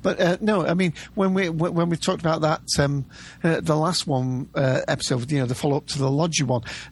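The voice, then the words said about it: British accent. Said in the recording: “you can probably tell from my accent, I'm in the UK”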